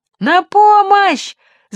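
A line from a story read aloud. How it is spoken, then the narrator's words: Jeep's shout. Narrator (Russian): закричал джип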